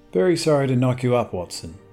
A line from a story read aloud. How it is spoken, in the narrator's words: said